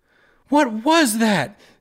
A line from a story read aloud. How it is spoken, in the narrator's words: Sarah screamed